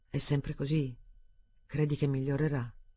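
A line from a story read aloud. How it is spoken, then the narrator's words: Murmured. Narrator (Italian): Mormorò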